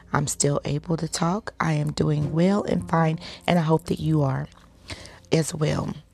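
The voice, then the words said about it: Congested, deeper than normal voice. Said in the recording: “your voice sounds a little different today ... I got some sinus stuff going on, so my voice is a little bit deeper than normal”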